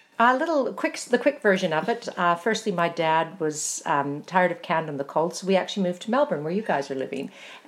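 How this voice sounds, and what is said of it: Canadian accent. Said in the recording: “from your accent, you're not from these parts. ... You're Canadian.”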